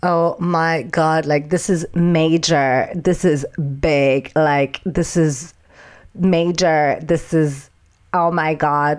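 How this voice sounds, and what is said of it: Imitating Janice from Friends. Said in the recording (French): “presque avec la voix de Janice de Friends”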